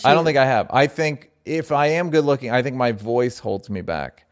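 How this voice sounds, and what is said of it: Deep, laconic, low-energy voice. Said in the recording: “Some people would say it's laconic and low energy ... I just like deep voice”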